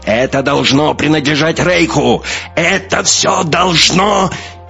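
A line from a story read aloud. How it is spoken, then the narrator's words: Hasty shout. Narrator (Russian): успел выкрикнуть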